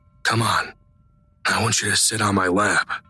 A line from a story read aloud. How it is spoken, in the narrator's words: He whispers in Judy's ear